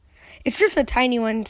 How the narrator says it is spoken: said Dr

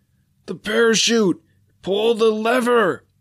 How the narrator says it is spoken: yelled, trying to point it out through the paralyzing G-force

